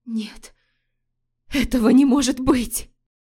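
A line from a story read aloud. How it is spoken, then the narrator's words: Terrified hoarse rasp. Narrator (Russian): Лорея в ужасе прохрипела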